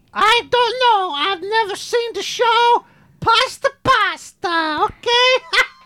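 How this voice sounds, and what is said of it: Mario-like Italian cartoon voice. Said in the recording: “I sound a bit like a Mario”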